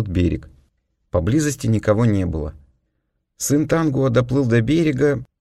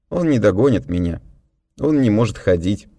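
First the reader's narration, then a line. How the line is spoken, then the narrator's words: Calm objection. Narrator (Russian): спокойно возразил я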